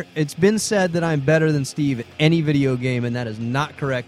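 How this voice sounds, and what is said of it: Strained, cracking hoarse voice. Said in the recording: “my voice just cracked ... I think I blew out my vocal cords trying to scream. So if this podcast sounds a little like this”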